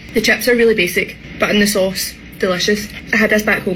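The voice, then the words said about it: Thick accent. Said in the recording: “that was a thick accent”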